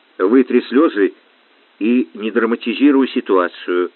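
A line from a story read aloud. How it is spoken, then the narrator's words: Quiet. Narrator (Russian): негромко сказал он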